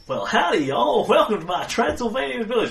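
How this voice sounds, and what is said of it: Put-on southern hillbilly accent. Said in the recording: “Transylvanian hillbilly accent ... Fine, southern hillbilly it is.”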